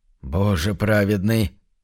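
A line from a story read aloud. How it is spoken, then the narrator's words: Confused mumble. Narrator (Russian): растерянно промямлил Уордл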